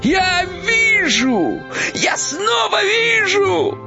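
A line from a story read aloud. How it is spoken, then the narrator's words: Joyful shout. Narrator (Russian): радостно закричал Кощей Бессмертный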